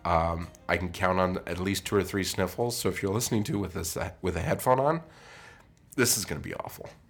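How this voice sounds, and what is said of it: Sick, congested, deepened voice. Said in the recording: “feeling a little under the weather ... I have an amazing radio voice right now”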